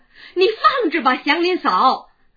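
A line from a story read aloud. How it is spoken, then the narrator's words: Hurried and loud. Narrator (Chinese): 四婶慌忙大声说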